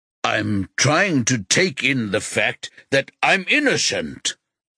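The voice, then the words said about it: Loud, raised speaking voice. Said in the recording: “Rocky says in a loud voice.”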